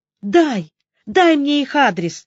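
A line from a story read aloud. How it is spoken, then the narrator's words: Pleading. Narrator (Russian): взмолилась Лида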